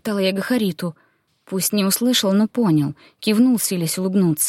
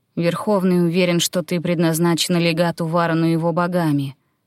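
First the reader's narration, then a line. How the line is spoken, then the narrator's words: Grim druid. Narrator (Russian): мрачно произнес друид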